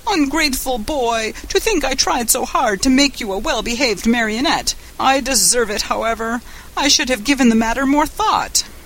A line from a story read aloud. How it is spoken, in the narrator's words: The poor old fellow wept and wailed like a child and said between his sobs